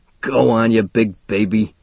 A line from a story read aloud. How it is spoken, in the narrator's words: snorts Gimpy